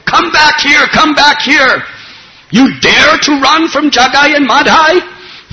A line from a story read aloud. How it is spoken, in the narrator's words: Jagai and Madhai were screaming out